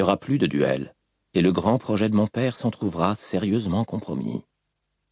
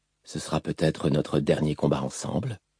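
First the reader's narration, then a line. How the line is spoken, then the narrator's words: Said quietly. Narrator (French): dit-il tout bas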